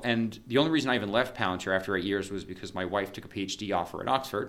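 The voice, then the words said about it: American accent. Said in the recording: “I sound like an American”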